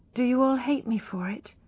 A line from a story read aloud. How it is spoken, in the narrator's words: asked Tess in a low voice